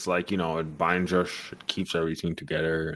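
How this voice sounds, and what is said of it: Scottish-accented celebrity impression. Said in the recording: “I suddenly had a Sean Connery accent there”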